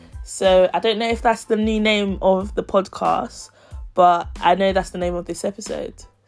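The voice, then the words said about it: Sick-sounding voice. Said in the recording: “hear from my voice, but I've been a little ill recently”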